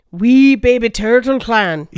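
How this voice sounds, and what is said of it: Put-on Scottish accent. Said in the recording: “I'm like half groundskeeper willing. It just says in a Scottish accent”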